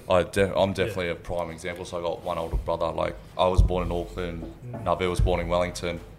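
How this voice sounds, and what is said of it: Australian accent. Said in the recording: “Aussie raised. ... You can tell by my accent.”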